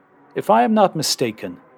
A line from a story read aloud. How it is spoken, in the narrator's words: he said